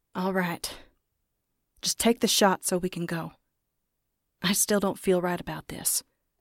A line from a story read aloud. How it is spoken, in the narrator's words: Kenny said